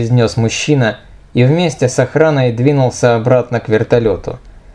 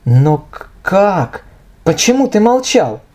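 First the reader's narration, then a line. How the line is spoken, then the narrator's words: Strained, forced out. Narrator (Russian): выдавила из себя Ника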